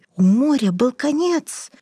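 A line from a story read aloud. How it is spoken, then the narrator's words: Breathless exhale. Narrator (Russian): выдохнул он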